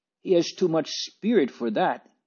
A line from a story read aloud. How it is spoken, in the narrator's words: cried the good wife indignantly